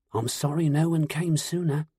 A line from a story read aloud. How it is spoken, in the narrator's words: Merlin whispered